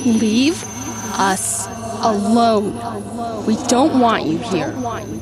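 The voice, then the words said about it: Mean girl voice. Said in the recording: “a mean girl voice in their heads”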